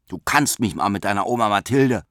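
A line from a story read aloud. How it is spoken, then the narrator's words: Snapping rudely. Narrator (German): schnauzte Robert daher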